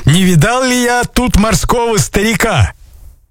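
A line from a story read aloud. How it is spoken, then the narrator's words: Shouting. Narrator (Russian): Это были купцы ... закричали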